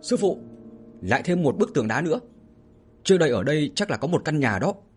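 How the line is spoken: Loud shout. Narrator (Vietnamese): ba đồ lỗ hét lớn

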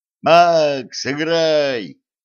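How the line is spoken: Shout from crowd. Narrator (Russian): крикнули из толпы

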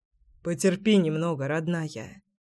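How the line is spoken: Quiet reply. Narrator (Russian): ответил я тихо

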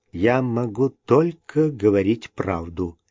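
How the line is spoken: Quiet. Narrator (Russian): тихо произнес Скотт

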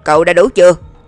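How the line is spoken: Sudden roar over radio. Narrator (Vietnamese): Trong bộ đàm, Lãnh Nguyệt đột nhiên gầm lên

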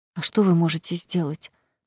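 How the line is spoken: Tearful whisper. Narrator (Russian): прошептала я, и из глаз хлынули слезы

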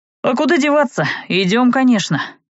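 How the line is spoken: Wry snort. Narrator (Russian): хмыкнул Талон

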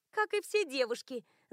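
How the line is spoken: Laughing woman. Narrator (Russian): засмеялась женщина

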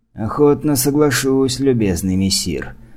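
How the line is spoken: Rueful sigh. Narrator (Russian): сокрушенно вздохнул дядюшка

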